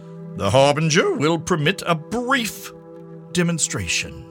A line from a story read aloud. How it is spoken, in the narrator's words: Then she raised her voice to pronounce